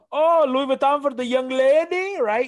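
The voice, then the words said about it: Put-on street vendor accent. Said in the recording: “I don't know what that accent was”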